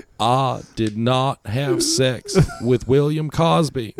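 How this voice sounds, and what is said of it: Bad Bill Clinton impression. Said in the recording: “Bad Bill Clinton impression.”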